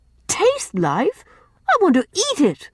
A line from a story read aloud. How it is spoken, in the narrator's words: cried Rilla, laughing